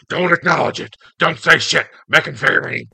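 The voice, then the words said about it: Vince McMahon impression. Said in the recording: “That's a good impression.”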